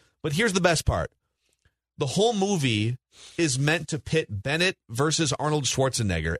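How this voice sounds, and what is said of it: Usual voice. Nothing is said of it.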